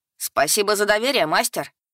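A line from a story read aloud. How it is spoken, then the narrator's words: Ironic shout. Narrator (Russian): Иронично выкрикнул Лис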